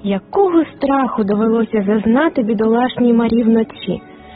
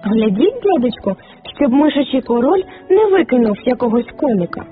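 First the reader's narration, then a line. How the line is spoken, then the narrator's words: Exclamation. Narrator (Ukrainian): Фріц вигукнув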